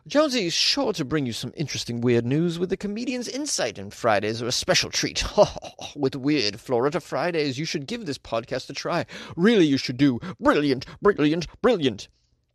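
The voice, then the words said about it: Put-on accent reading a review. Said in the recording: “I don't know if this is Tom's accent, but I imagine it is ... I feel like the accent called for it. I don't know if Tom sounds like that”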